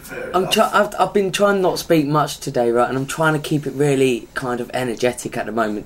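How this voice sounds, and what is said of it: Strained, failing voice. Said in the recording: “I'm surprised my voice isn't that bad ... I can hear it going. ... I could feel it going.”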